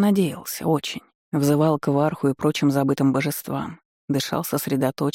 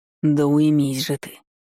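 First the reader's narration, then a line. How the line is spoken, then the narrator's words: Angry hiss. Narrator (Russian): Прошипел сердито, получив очередной тычок в ребра от бдящего сознания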